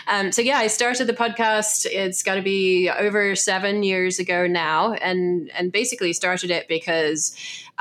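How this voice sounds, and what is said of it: Gravelly, congested voice. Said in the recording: “I sound as though I have a cold. I do have a cold. I don't always quite sound quite as gravelly as this.”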